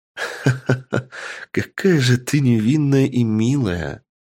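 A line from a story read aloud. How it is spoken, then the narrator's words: Playful laughter. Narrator (Russian): Задорно рассмеялась Малара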